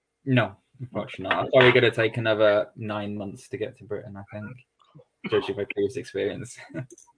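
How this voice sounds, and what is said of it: Generic British accent. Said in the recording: “strange accent ... It's not a put-on ... accent is legitimately British ... An accent that no one in Britain can place ... It's accentless British ... It's generic.”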